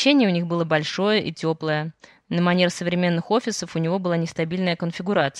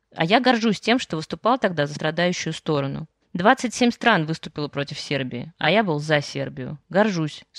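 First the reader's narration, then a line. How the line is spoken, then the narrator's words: Plain. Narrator (Russian): сказал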